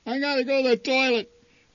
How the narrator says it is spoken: whined Randy

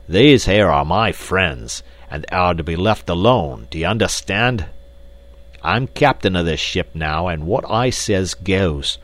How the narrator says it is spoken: With a loud roar, Black Michael cried

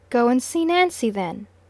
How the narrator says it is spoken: my wife said sharply

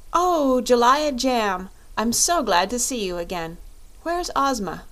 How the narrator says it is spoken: Dorothy with evident pleasure and exclaimed

